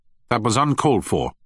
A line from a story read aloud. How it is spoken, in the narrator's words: said Young sharply